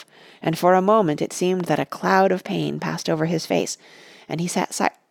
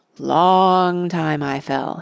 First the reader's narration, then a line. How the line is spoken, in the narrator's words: he said at last, slowly, as if thinking back with difficulty